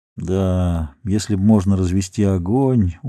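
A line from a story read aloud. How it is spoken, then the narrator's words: Glum agreement. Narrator (Russian): уныло согласился Чезаре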